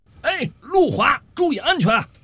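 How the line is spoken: Shouting from behind. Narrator (Chinese): 小五就在后头喊了一句

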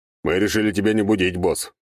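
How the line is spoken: Deep bass voice. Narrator (Russian): пробасил Сектор

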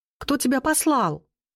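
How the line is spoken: Shouted question. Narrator (Russian): прокричала я, не надеясь сильно на ответ

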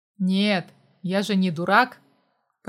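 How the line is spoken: Grumbling. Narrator (Russian): Проворчал Костя

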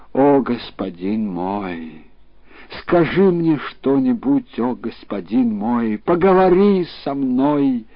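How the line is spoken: Weeping, moaning plea. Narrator (Russian): стала плакать и стонать, и сказала

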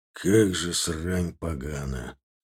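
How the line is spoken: Breathing out. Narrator (Russian): Выдохнул Пнев

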